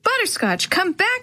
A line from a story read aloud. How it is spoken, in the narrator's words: shouted